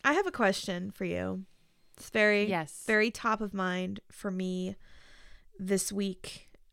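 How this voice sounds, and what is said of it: Voice sounds sick. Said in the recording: “as you can probably hear from my voice. I have been sick this week.”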